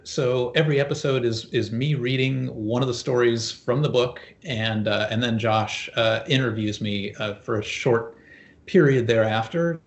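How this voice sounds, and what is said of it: Polished radio voice. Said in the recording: “you have a radio voice”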